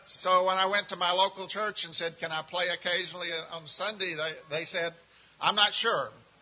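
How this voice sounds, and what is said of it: Central Texas accent. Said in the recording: “you can tell by my accent, I'm not from the local area. I'm from Central Texas.”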